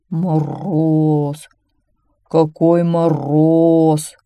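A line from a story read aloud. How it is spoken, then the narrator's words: Growling bear. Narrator (Russian): рычал медведь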